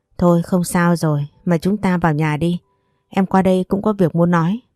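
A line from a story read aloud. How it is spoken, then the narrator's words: Sighing. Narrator (Vietnamese): cô chỉ thở dài, cô nói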